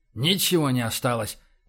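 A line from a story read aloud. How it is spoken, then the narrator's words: Muttering under breath. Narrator (Russian): пробормотал Боровский себе под нос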